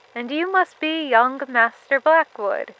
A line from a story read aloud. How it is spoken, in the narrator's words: he replied